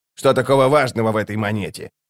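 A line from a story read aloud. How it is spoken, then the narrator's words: Grumbling. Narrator (Russian): проворчал он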